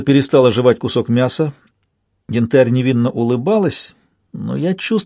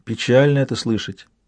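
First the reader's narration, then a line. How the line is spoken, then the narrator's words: Soft. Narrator (Russian): мягко сказала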